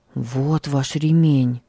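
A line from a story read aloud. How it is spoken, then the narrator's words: Quiet. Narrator (Russian): тихо сказал он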